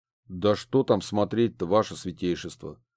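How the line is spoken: Grumbling guard. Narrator (Russian): заворчал стражник

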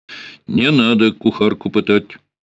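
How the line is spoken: Dry, curt. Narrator (Russian): сказал сухо

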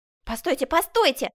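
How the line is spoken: Shouted. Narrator (Russian): закричал Жак Абри

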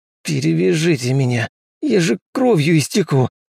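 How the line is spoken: Hiss through teeth. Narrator (Russian): Сквозь зубы прошипел Штольц

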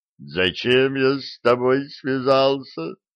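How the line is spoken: Exhausted moaning. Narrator (Russian): стонал Диффенбахий, еле передвигая ноги

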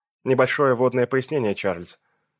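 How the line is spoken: Stern tone. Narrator (Russian): строгим тоном произнесла Дженни

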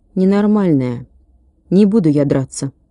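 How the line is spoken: Weak thin voice. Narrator (Russian): Ники жидким голосом сказал

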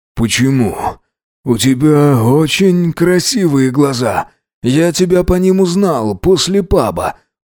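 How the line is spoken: Moaning. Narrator (Russian): простонал он

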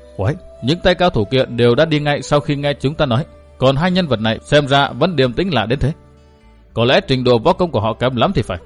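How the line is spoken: Muffled hushed voice. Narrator (Vietnamese): Một gã lấy tay che miệng, nói khẽ

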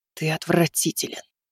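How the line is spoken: Disgusted hiss. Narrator (Russian): прошипела она в ответ

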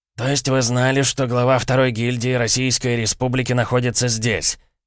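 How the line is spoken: Irritated man. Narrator (Russian): раздраженно повторил мужчина

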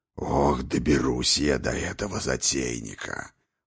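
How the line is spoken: Growling. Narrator (Russian): прорычал Хрофт

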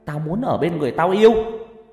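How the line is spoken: Shrill voice. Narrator (Vietnamese): nó nói bằng cái giọng the thé

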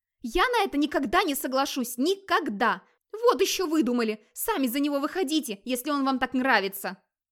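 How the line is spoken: Shouting. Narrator (Russian): кричала Ингерид

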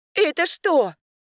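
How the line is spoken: Startled cry. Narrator (Russian): вскрикнула она

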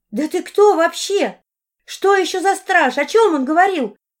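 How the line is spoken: Near-hysterical shout. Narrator (Russian): крикнула Арина, находясь на грани истерики

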